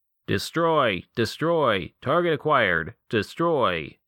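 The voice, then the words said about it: Mechanical robot voice. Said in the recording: “in a mechanical voice”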